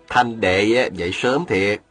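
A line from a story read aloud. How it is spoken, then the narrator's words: Smiling. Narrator (Vietnamese): Viên Thừa Chí mỉm cười nói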